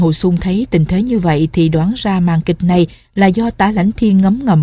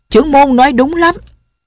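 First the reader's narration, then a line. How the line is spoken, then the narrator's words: Loud crowd shout. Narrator (Vietnamese): Hơn 100 tên đạo nhân lớn tiếng hô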